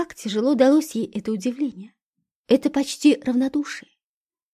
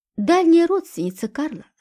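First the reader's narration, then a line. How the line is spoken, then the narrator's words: Calm answer. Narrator (Russian): спокойно ответил Федор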